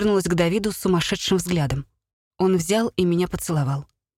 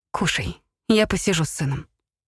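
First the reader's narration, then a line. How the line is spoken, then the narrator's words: Whispered against lips. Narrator (Russian): прошептал Алоэй мне прямо в губы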